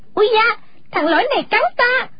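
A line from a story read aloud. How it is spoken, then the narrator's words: Sudden shrill scream. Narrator (Vietnamese): Đột nhiên nàng hét lên lanh lảnh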